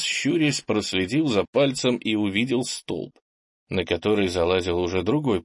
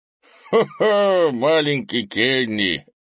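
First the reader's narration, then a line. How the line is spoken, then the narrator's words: Laughing. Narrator (Russian): посмеялся Крис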